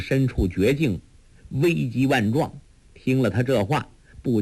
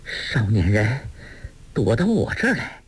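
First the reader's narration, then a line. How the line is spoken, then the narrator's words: Breathless. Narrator (Chinese): 那女人气喘喘地说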